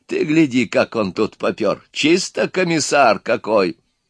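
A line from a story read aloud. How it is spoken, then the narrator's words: Old man laughing. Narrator (Russian): Старик засмеялся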